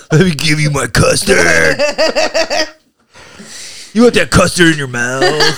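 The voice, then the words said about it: Gruff WWE-wrestler-style voice. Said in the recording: “every time I'm imitating something coming, I sound like this... It's like a WWE wrestler.”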